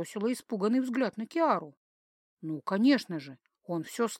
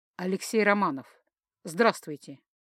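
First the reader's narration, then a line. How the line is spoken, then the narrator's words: Alien, perfectly calm. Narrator (Russian): Совершенно спокойно начал инопланетянин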